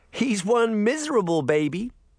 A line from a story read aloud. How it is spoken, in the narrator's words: Sabrina said, laughing